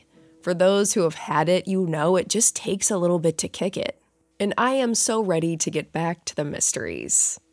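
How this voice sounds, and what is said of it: Slightly raspy voice. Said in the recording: “my voice is still a little bit raspy”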